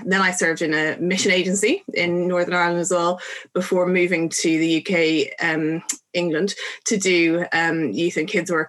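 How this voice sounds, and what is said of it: Irish Dublin accent. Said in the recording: “You can tell from my accent that I don't come from England or Northern Ireland, although lots of people think I do come from Northern Ireland. I come from Dublin”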